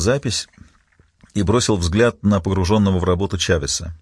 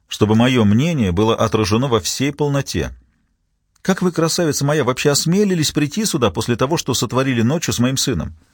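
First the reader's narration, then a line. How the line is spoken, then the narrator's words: Sharp. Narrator (Russian): резко произнес бывший судья Рикард Франсен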